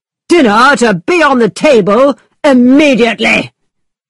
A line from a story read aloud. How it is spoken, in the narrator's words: shouted